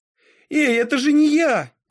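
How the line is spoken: Shouting. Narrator (Russian): крикнула я

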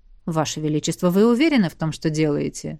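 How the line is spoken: Calm. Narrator (Russian): спокойно уточнил Эдмунд

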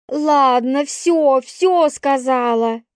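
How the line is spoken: Barked. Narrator (Russian): рявкнула она

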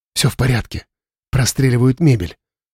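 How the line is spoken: Whisper. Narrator (Russian): прошептала им Юля

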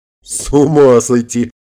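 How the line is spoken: Laughing loudly. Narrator (Russian): расхохотался Харитонов

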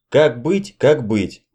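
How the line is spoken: Irritated. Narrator (Russian): раздраженно сказала на кухне Даша

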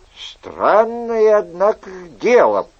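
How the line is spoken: Mutter. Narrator (Russian): пробормотал Гранфло

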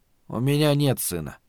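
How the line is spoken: Very quiet. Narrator (Russian): сказал Малибард, но очень тихо

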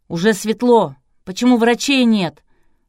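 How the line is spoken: Shouted. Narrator (Russian): выкрикнул чей-то голос

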